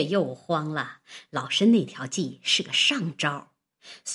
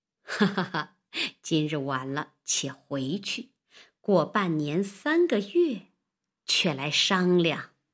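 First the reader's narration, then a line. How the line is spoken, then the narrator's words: Laughing. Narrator (Chinese): 王婆笑道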